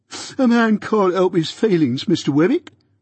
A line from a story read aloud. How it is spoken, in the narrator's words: pleaded Mike